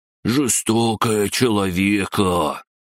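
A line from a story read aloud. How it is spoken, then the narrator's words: Sad drawl, crab-gnome. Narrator (Russian): грустно протянул крабогном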